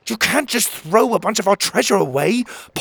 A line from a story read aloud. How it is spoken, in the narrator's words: Pocket snapped